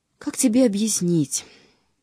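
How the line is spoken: Weary. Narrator (Russian): сказал он устало

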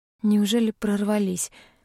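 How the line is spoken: Tired question. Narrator (Russian): устало спросила

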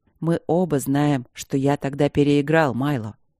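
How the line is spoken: Serious hoarse objection. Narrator (Russian): серьезно и сипло возразил Кембридж

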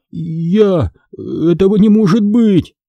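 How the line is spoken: Forced out, stammering. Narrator (Russian): выдавил я, заикаясь

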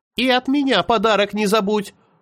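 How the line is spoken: Shouted. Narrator (Russian): закричала Аня

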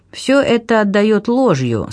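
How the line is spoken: Plain. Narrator (Russian): сказал

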